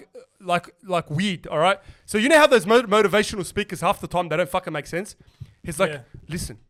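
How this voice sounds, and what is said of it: Usual voice. Nothing is said of it.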